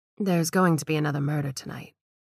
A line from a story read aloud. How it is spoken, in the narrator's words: Gladys answered calmly